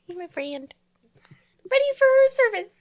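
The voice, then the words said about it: Little squeaky mouse voice. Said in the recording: “In his little mousy voice.”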